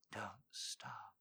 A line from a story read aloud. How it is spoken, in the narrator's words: she murmured